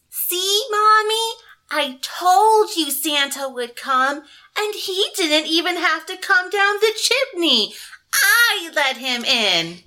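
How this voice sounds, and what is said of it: Little girl voice. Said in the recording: “let me get my little girl voice.”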